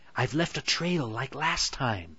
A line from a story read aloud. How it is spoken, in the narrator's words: Hansel whispered to Gretel consolingly